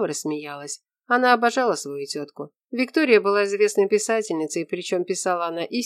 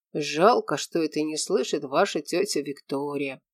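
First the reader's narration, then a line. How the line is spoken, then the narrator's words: Quiet. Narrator (Russian): тихо сказал Морис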